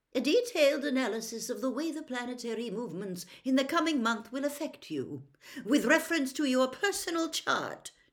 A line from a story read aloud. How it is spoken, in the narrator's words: she snapped, sounding much more like Professor McGonagall than her usual airy-fairy self